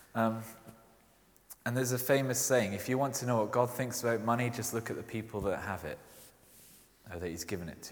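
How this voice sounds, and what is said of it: Mild Scottish accent. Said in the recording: “you might have heard from my accent, I'm Scottish. It doesn't really come out that strong”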